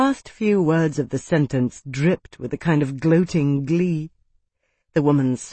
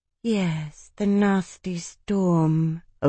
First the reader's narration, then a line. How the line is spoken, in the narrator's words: Odiana murmured